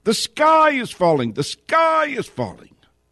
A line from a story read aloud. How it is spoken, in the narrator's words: The big three have come racing to Washington screaming